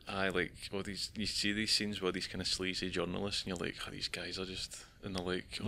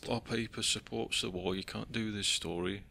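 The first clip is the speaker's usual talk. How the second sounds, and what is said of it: Attempted Cockney accent, admittedly weak. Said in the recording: “I can't do a Cockney accent either, but ... I'm trying my best, you know.”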